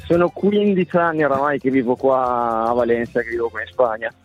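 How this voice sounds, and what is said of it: Italian speech with Spanish accent. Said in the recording (Italian): “ma che accento spagnolo ... hai acquisito un attimo di accento ... Si sente proprio ... Si sente tutto”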